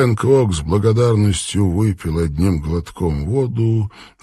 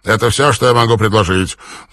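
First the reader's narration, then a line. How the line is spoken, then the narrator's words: Angry snap. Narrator (Russian): зло бросил он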